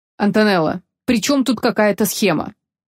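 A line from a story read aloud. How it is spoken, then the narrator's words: Irritated question. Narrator (Russian): раздраженно спросил Энор Вилани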